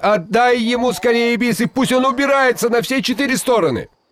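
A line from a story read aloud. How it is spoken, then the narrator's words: Frightened shout. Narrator (Russian): Шигайбай испугался, что Алдар Косе еще задержится в его ауле, и крикнул жене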